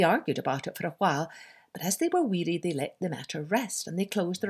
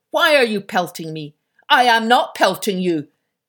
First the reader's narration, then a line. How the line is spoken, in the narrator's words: answered the first, growling